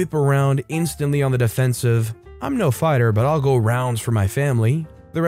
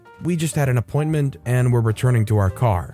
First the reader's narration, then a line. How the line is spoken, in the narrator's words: calmly said